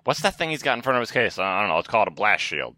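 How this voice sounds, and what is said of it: Imitates another person's voice. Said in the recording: “That was my George Lucas impression.”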